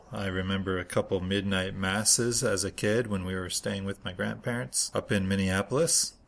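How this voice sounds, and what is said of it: Minnesota Twin Cities accent. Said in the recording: “That is where my accent is from, by the way, the Twin Cities up there. It's probably driving some of you crazy by now.”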